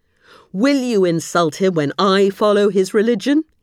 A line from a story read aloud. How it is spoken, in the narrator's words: he yelled